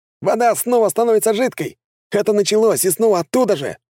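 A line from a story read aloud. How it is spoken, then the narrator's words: Shouting. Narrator (Russian): кричал боец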